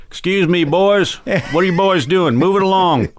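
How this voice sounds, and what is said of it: Put-on Texas accent. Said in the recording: “they had a Texas accent.”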